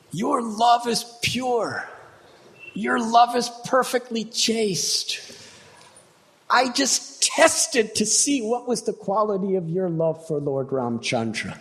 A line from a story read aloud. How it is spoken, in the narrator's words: exclaimed